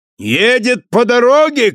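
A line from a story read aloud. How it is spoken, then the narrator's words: Shouted. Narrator (Russian): крикнул Бриттон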